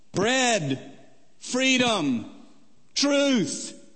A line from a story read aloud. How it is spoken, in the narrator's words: a giant crowd of protesters, shouting up at Mikhail Gorbachev